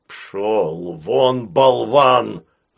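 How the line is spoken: Growling. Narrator (Russian): зарычал

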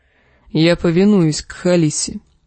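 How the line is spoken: Grumbling. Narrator (Russian): проворчал он

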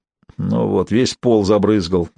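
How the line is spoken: Displeased grumbling. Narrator (Russian): недовольно проворчал Костоправ

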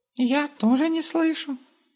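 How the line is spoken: Squeaky. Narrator (Russian): пропищал Густав

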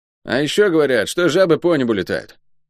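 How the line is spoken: Grumbling. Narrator (Russian): пробурчал Лук

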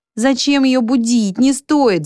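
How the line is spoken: Groaning voices. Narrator (Russian): застонали голоса у экрана

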